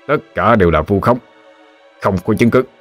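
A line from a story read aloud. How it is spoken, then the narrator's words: Harsh, through gritted teeth. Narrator (Vietnamese): gằn giọng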